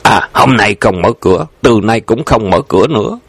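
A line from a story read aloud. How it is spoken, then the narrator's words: Snapped. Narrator (Vietnamese): gã đã gắt lên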